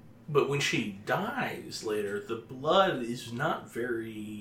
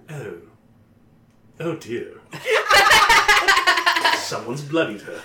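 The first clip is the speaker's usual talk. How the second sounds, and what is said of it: Put-on British accent. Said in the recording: “Can you do that in a British accent?”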